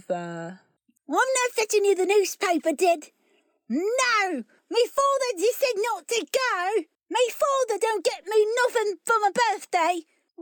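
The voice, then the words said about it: Little boy's voice, Cockney-ish accent. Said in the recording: “do a little boy's voice in close to Cockney-ish accent.”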